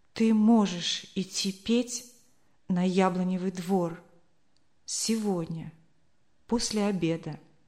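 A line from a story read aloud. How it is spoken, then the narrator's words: Trembling voice. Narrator (Russian): сказал дрожащим голосом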